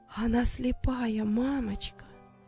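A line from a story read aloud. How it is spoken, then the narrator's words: Girl's whisper. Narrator (Russian): прошептала девочка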